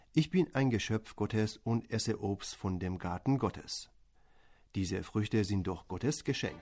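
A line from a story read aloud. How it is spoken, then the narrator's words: Calm answer. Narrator (German): Der Mann pflückte ruhig weiter Früchte ab, während er dem Gärtner antwortete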